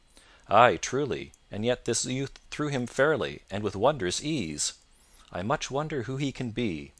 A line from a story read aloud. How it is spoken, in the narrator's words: thus said Sir Richard in a thoughtful voice